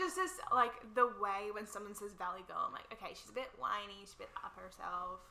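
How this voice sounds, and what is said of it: Usual voice. Nothing is said of it.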